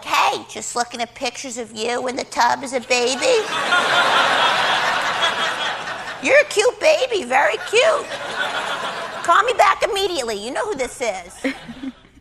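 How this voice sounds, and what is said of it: Imitates her mother's voice. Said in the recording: “doing an amazing impression of her mom. I mean, it sounds just like her.”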